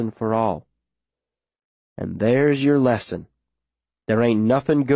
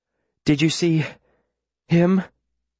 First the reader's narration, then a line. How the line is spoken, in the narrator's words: She says between breaths